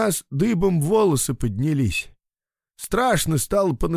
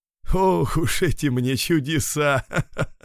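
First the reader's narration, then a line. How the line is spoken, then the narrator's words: Good-natured laugh, old abbot. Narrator (Russian): рассмеялся добродушный игумен с седой до колен ветхозаветной бородой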